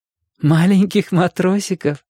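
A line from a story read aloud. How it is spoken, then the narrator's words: Laughing. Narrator (Russian): засмеялся Ашотик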